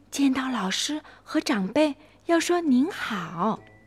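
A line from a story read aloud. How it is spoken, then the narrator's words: Hurried whisper. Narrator (Chinese): 琪琪赶紧在泡泡耳边嘀咕着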